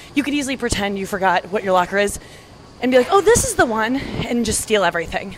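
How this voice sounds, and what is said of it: Out of breath, breathy speech. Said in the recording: “I'm getting out of breath now, guys. This is, must be annoying to listen to.”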